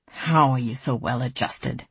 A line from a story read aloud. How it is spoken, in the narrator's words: Dimple grumbled